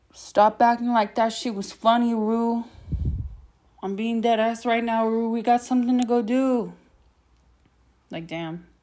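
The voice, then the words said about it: Imitates a TV character's voice. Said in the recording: “I do a good Fez impression.”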